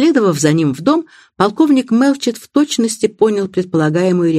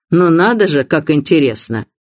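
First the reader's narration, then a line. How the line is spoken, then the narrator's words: Haughty tone. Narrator (Russian): Мистер Блейк надменным тоном ответил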